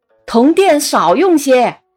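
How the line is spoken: Shouting from afar. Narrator (Chinese): 走得远了，夏先生还要大喊

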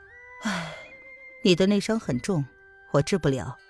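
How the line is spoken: Sighing, hesitant. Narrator (Chinese): 似乎叹了一声，过了一会儿才道

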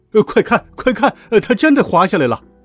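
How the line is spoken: Excited loud clamor. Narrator (Chinese): 都一脸兴奋，大声嚷嚷着

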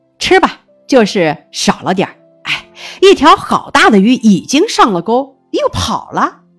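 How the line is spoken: Laughing. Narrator (Chinese): 他笑着说

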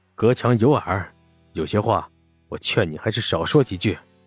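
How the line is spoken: Lowered voice. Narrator (Chinese): 沈梦生 压低声音道

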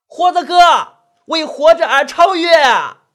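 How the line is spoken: Loud voice. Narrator (Chinese): 那兔子先生大声说道

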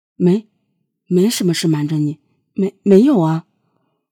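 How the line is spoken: Embarrassed stammering. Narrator (Chinese): 许同刚的脸刷的红了，结结巴巴的说

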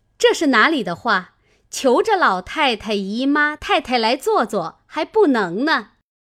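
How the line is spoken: Laughing. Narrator (Chinese): 探春笑道

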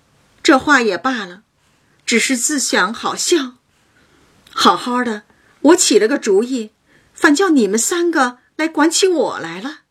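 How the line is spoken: Laughing. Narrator (Chinese): 因笑道

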